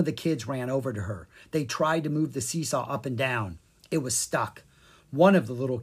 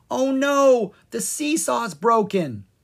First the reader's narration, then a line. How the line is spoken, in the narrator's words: she yelled